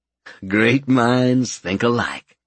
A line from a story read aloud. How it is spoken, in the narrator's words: Albert chuckled